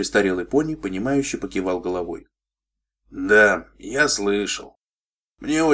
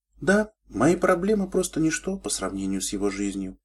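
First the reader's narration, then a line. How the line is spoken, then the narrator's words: Thoughtful. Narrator (Russian): задумчиво сказала Шайнблиз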